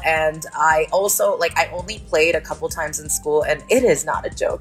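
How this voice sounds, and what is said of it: American accent. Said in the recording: “I am an American. I know that this accent is really hard to nail down, but that is where I'm from”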